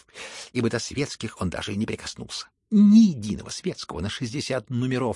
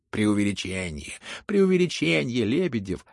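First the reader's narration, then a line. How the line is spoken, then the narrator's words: Laughing crowd. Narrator (Russian): хохотали кругом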